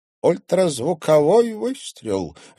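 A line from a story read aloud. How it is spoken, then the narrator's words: Joyful. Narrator (Russian): радостно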